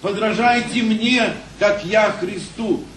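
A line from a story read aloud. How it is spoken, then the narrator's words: Plain. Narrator (Russian): говорит апостол Павел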